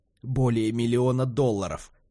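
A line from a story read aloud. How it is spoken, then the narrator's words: Wheezing, gasping for air. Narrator (Russian): просипел Тулипа, хватая ртом воздух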